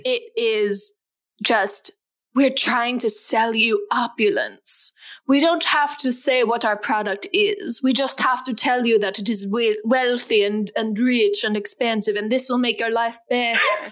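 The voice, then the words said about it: English accent drifting into Transylvanian. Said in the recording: “What's going on with that accent? It started out like English and ended up Transylvanian. By the end, you just sounded like one of Dracula's wives in Van Helsing.”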